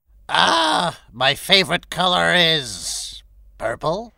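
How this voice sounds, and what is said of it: Speaks in another character's voice. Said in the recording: “who sounds like Tantrumus Maximus”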